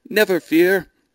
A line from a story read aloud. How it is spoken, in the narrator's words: shouted her sixth-rank suitor, who just happened to be riding by, to her aged father, who stood on a nearby balcony